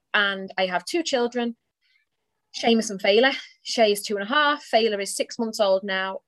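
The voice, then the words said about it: English accent from near Liverpool. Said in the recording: “probably by the accent you can tell, I am from England. A little town outside of Liverpool.”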